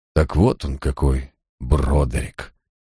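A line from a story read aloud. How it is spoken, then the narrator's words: Barely audible. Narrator (Russian): едва слышно проронил Джайлз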